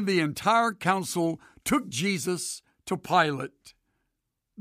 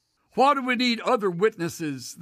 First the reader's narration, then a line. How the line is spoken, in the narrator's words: they said